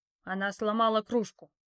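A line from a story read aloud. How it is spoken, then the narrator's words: Growled. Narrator (Russian): рыкнул хозяин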